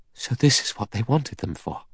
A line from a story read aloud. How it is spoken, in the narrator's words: Vera whispered